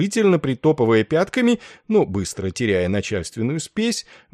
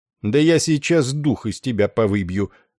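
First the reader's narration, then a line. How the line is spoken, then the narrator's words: Cold. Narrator (Russian): Холодно отозвался Денбор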